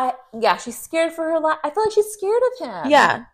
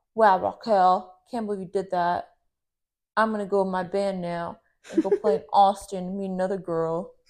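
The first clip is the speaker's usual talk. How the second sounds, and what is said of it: Poor imitation of another person's voice. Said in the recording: “really bad Tom voice, though. I don't I'm really bad at mimicking people's voices, apparently.”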